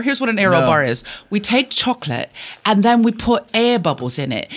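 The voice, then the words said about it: Put-on British accent, pretty good. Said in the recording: “you're offending them with accent ... Your British accent's pretty good. ... I have an affinity for your British accent.”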